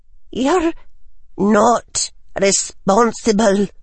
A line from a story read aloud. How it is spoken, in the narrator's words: she said, though her voice trembled